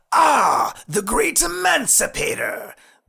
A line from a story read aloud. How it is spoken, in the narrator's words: the vampire sneered